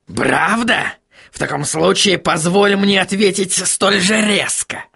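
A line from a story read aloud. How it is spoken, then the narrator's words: Barked. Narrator (Russian): рявкнул господин Кноп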